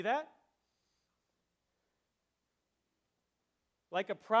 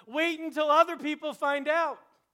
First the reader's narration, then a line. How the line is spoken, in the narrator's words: he shouts at us